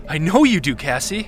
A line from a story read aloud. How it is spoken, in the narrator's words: Ludo exclaimed excitedly